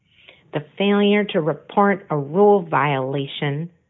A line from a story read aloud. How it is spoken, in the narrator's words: Conan said in a nasal voice